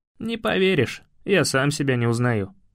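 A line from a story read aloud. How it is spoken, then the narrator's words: Grim smirk. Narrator (Russian): усмехнулся мрачно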